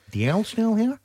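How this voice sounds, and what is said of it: Poor fake Australian accent. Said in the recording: “On behalf of any Australian people who are living here, can I just please apologise?... That was a poor accent. I'm not good at it”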